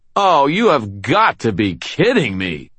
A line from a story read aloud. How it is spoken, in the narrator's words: I shouted